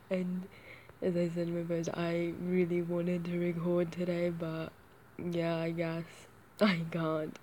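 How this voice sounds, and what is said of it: Hoarse, failing voice. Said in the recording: “as you can probably hear, I'm starting to lose my voice and I sound absolutely fucking ridiculous ... my voice is completely gone”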